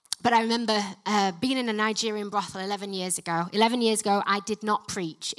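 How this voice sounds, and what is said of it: Yorkshire English accent. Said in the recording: “Not with this Yorkshire accent”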